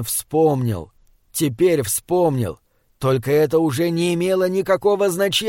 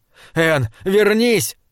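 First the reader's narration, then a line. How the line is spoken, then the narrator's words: Shout. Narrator (Russian): крикнул он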